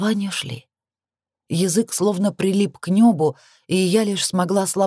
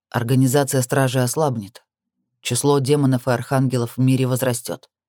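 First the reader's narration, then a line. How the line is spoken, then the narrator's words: Calm. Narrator (Russian): продолжал спокойно Крис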